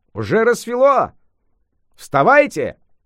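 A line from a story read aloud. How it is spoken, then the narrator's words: Shouting. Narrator (Russian): крикнул он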